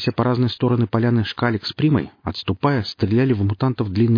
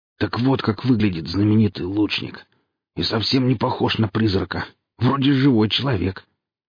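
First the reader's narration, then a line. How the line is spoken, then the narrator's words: Wheezing speech. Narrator (Russian): хрипя, произнес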